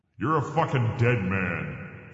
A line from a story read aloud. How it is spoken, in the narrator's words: the Lord thundered